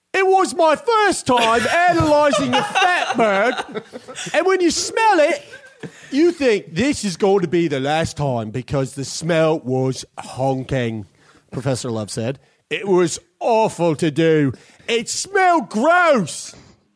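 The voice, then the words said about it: Put-on British accent. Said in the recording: “I do my best. My best UK accent.”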